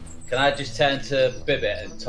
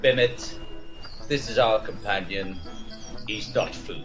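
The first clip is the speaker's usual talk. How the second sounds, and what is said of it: Draconic character voice. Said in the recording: “talk in my draconic voice”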